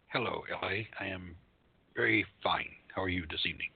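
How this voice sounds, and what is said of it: Flat, monotone delivery. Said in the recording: “You sound a bit monotone”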